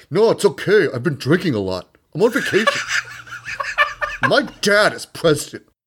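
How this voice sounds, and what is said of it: Put-on American accent. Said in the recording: “I said it in an American accent.”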